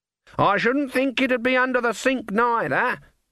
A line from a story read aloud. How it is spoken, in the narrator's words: she shouted